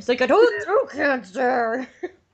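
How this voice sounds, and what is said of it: Exaggerated throaty gravelly growl. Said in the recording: “really throaty ... why do you sound like you have throat cancer?”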